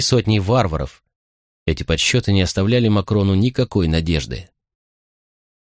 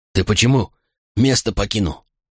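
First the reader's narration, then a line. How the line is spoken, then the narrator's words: Hoarse exhale. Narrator (Russian): хрипло выдохнул Катон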